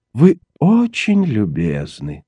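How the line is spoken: Bored voice. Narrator (Russian): скучным голосом сказал мистер Слоун

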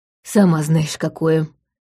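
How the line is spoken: Grumbling. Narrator (Russian): проворчала мачеха

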